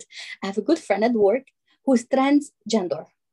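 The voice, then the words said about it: Put-on accent mimicking her mother. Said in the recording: “I'm going to do her accent.”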